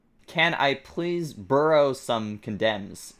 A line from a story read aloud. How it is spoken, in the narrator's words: He growled angrily